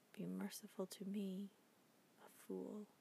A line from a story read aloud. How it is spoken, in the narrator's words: The king murmured low